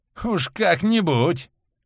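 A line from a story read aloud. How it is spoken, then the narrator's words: Short laugh. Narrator (Russian): хохотнул Валентин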